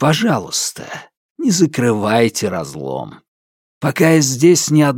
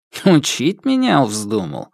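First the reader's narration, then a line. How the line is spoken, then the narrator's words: Weary smirk. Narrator (Russian): Император устало усмехнулся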